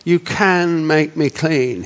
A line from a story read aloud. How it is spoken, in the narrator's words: he said